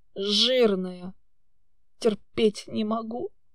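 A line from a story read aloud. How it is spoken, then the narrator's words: Snorting hmph. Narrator (Russian): Парень хмыкнул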